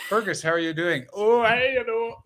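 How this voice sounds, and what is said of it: Put-on Irish accent. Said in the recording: “That is not the worst Irish accent you just did.”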